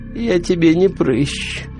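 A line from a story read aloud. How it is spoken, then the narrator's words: Sleepy voice. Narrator (Russian): сонно сказала грязная гора мяса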